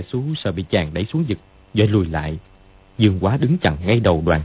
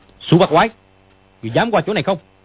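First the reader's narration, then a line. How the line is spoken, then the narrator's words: Shouted. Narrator (Vietnamese): Dương Quá quát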